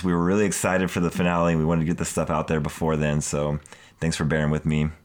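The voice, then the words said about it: Sick, throaty voice, slightly mumbled. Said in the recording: “I'm catching a little cold ... why my voice sounds like this, I'm just, like, fighting this thing in my throat right now ... mumbling more than usual tonight”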